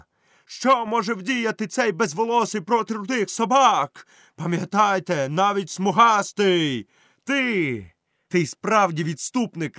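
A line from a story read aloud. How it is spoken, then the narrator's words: Shout. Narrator (Ukrainian): крикнув Мауглі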